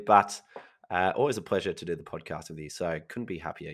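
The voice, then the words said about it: Husky, slightly hoarse voice. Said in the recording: “My voice is a bit husky today. I've been a bit sick lately ... you do sound a bit husky”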